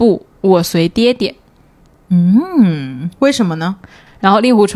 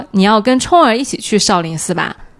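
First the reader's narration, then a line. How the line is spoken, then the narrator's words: Plain. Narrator (Chinese): 任盈盈咋说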